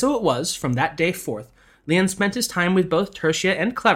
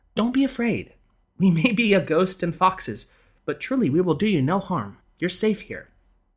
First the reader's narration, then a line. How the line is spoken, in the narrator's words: telling him soothingly